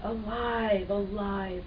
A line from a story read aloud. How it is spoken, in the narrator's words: they whispered